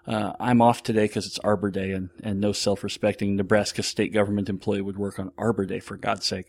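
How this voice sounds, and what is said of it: Sick, slightly off voice. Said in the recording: “I'm getting sick, and so my voice is off. I don't know if you can hear it or not. I've got a cough.”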